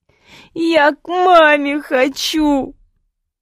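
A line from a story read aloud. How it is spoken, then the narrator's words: Girl sobbing loudly. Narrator (Russian): белугой рыдала девчонка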